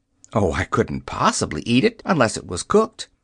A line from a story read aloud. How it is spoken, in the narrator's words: exclaimed Dorothy